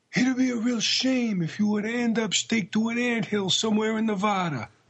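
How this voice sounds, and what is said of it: Put-on mobster Guido accent. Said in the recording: “Can you do it in the accent ... That was terrific. ... That was pretty good. ... I can get my Guido on. ... I can do Guido better than I can do Boston.”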